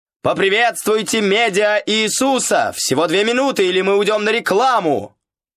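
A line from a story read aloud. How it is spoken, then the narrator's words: Full-throated shout. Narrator (Russian): крикнуть во все горло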